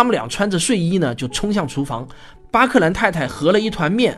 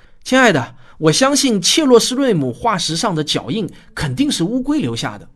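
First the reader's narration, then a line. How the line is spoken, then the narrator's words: Excited shout. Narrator (Chinese): 丈夫激动的大喊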